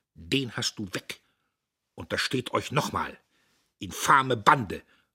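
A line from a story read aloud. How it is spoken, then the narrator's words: Murmur. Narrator (German): murmelte Dietrich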